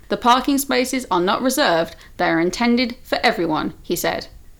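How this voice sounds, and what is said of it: Newsreader-style reading voice. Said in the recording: “Did you like my news voice, by the way? ... Yeah, that was lovely.”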